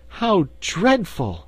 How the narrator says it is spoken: she exclaimed

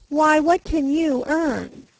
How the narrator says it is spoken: says she

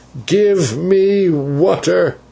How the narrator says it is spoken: he cried

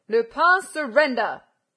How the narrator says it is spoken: roared Ganimard

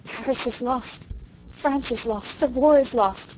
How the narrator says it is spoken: gasped Rilla, amid the utter ruins of hope and confidence and belief

